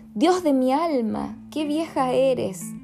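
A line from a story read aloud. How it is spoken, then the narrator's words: Exclaimed. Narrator (Spanish): exclamó el soldado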